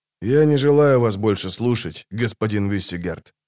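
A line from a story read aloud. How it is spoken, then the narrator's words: Quiet. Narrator (Russian): тихо сказал Геральт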